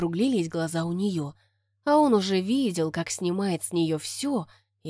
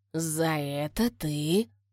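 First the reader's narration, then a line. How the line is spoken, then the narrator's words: Pained groaning whisper. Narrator (Russian): Застонал он, как от зубной боли, и зашептал ей на ухо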